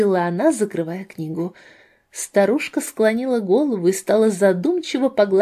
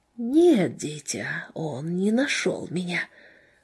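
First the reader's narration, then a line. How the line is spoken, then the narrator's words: Strange whisper, dwarf mother. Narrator (Russian): матушка-карлица ответила на ее вопрос, прошептав каким-то странным голосом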